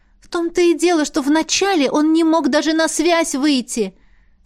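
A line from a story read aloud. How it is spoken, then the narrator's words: Desperate exclamation. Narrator (Russian): с отчаянием воскликнула я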